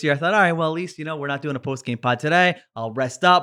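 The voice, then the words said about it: Sick-sounding, under-the-weather voice. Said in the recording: “I'm a little under the weather, as you can probably hear from my voice”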